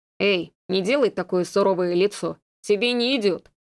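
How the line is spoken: Snorting chuckle. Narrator (Russian): хмыкнул Дес

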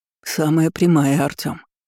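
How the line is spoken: Plain. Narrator (Russian): ответил он

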